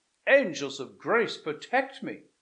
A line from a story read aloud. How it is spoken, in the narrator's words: cried Frederick, recoiling